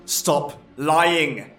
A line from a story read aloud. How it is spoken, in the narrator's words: Brant bellowed